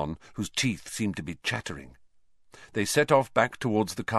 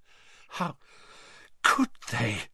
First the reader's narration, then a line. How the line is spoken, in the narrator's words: she choked